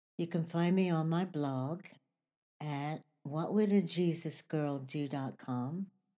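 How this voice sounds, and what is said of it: Voice audibly not back to normal. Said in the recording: “as you can tell, my voice is still not back to normal, but it was worse”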